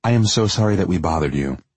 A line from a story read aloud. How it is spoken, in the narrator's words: she said, her voice thick with tears